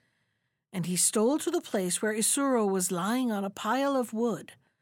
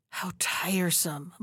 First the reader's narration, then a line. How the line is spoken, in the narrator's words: muttered Gudu